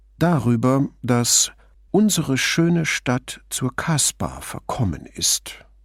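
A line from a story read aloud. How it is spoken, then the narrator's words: Mocking purr. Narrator (German): säuselte Brunetti spöttisch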